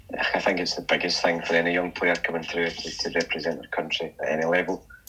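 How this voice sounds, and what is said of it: Scottish accent. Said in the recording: “as a proud Scottish person, you know, you've got the accent”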